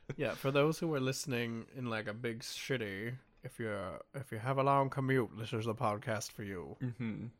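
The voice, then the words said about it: Speaks in a put-on accent. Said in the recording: “Why do I keep doing that accent today?”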